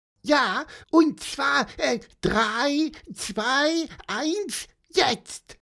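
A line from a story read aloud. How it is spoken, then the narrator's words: Squeaky voice. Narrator (German): piepste Pieper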